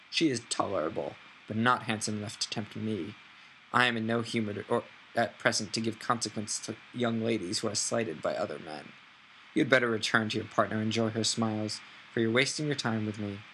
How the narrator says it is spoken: coldly said

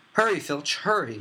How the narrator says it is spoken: shrieked Umbridge

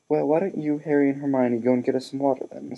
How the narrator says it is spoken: said Mr

